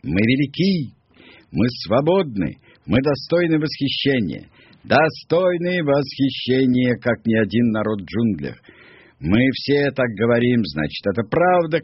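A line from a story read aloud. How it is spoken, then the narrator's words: Shouting, group. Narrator (Russian): кричали они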